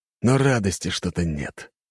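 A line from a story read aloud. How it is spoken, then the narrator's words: Sighing. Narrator (Russian): вздохнул он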